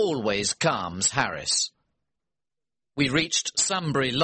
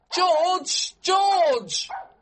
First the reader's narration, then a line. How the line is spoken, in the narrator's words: shouted